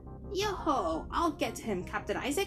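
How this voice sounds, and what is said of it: Hearty pirate accent. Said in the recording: “in his best hearty pirate accent”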